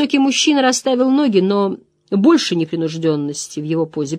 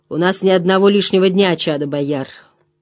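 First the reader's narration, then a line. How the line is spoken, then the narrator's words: Gentle old man. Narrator (Russian): мягко произнес седоволосый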